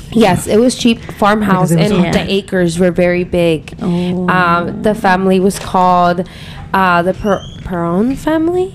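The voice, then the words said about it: Speaks English with an accent. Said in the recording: “Sorry, guys, my accent.”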